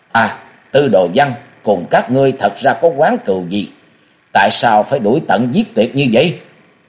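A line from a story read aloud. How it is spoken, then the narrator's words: Stern forced-calm shout. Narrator (Vietnamese): cố gắng trấn tĩnh nghiêm giọng quát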